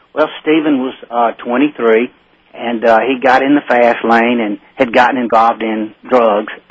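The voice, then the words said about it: Southern American accent. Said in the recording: “you got that great southern accent”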